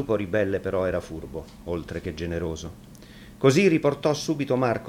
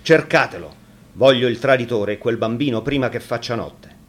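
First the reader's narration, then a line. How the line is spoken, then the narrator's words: Angry outburst. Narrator (Italian): Quando gli fu riferito dell'ammutinamento, sbottò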